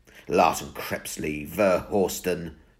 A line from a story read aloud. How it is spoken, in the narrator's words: Steve sneered